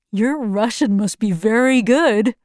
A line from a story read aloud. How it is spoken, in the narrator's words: he laughed